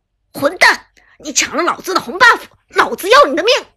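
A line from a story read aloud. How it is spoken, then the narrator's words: Furious, enraged. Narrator (Chinese): 清风恼羞成怒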